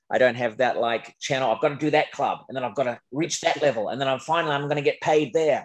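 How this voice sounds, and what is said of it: Unusual non-American speaking voice. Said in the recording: “I'm not too Americanized ... I just turn up with this weird voice”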